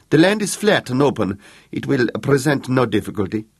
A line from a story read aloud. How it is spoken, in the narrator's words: said the Count eagerly